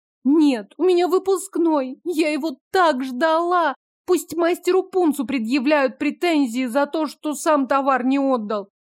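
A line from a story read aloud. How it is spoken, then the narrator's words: Delighted squeal. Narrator (Russian): не сдержала восхищенного визга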